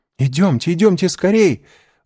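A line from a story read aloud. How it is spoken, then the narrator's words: Excited exclamation. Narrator (Russian): взволнованно воскликнула Жюли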